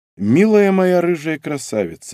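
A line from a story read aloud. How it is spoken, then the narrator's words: Repeated sigh. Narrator (Russian): вздохнул я в очередной раз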